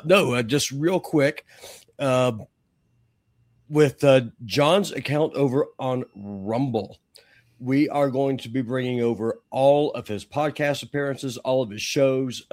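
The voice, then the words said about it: Damaged, strained voice. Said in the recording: “Apologize for my voice. ... At least I can talk a little bit now.”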